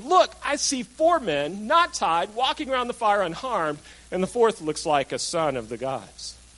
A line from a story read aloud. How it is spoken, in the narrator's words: he exclaimed